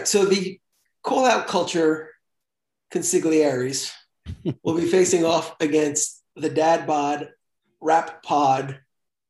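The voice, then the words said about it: Put-on English accent. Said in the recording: “I want the English accent introduction.”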